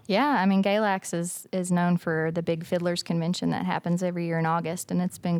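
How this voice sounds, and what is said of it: Appalachian Virginia accent. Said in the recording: “I think the accent kind of gives it away ... You're from Galax, Virginia ... It's just Appalachia, pretty much.”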